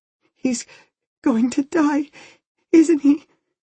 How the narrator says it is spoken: She was breathing in little sobs

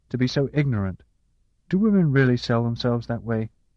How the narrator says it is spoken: she said fiercely

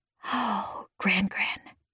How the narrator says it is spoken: I whispered

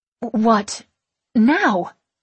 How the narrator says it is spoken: I sputter

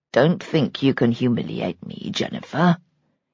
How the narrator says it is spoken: he said quietly

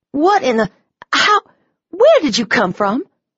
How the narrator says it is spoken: I sputtered

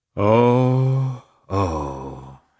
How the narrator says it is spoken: he sighed deeply

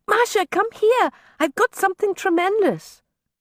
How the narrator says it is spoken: Sasha cried from the aft deck of the schooner

